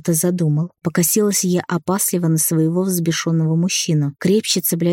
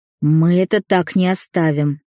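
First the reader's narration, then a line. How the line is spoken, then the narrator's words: Growled through clenched teeth. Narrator (Russian): прорычал сквозь сжатые зубы Демьян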